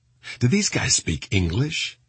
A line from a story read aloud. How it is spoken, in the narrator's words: he asked